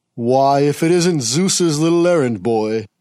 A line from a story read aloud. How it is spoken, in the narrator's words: drawled Hades